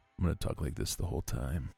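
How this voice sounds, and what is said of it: Deep, put-on sexy voice. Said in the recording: “my deep... sexy voice”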